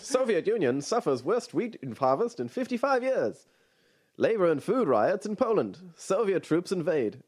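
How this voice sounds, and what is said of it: Old-timey radio announcer voice. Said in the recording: “I'm going to do to my YNT voice ... Old-timey radio voice.”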